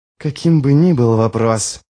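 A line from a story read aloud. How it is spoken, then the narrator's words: Hissing into ear. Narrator (Russian): прошипел Ярви ему в ухо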